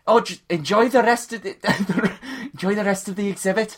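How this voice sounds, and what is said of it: Character voice with shifting accent. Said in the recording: “This accent's changed, hasn't it? ... I know, it's changed dramatically.”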